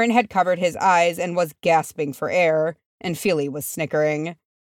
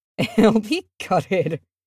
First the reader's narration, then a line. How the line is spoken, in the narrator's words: Feely chuckled